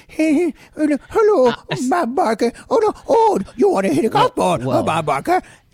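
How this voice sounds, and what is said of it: Adam Sandler impression. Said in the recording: “Really good Adam Sandler impression ... you like that Adam Sandler? That impression? Was really good.”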